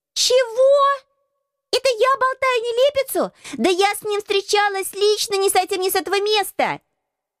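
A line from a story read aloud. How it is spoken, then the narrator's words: Young girl shouting. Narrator (Russian): крикнула самая маленькая красотка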